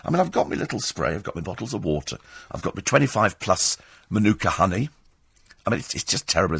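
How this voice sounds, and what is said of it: Croaky, hoarse voice. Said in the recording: “you sound awful ... I've got no throat ... a croaky voice”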